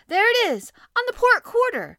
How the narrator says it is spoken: cried the harpooner

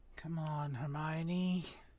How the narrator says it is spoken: Ron muttered desperately

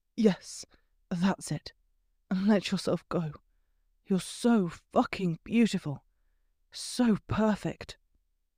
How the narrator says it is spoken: he muttered into her ear

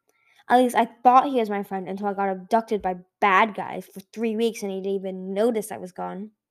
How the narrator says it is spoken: Kingaju added bitterly

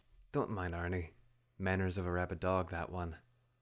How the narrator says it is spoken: she murmured when they were out of earshot

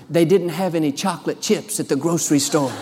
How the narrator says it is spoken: whispered

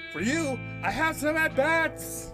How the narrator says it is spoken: she shouted

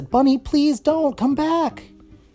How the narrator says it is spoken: Kitty yelled after them and said

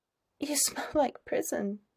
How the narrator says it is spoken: mumbles against his shirt collar

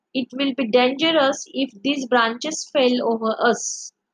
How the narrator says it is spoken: said John

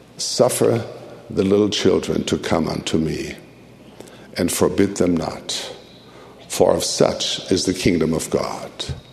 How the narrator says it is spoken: the Spirit whispered

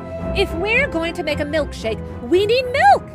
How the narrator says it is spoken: exclaimed Margaret

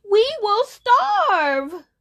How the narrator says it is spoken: Osada cried

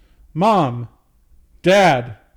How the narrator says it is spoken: James called out

